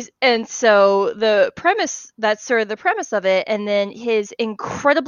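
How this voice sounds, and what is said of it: Usual voice. Nothing is said of it.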